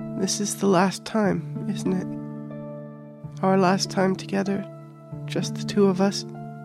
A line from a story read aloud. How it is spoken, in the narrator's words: Fiona added, almost timidly